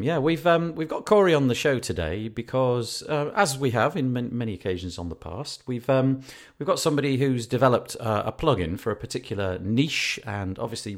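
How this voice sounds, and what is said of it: Northern British accent. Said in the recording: “I have a British, Northern British accent.”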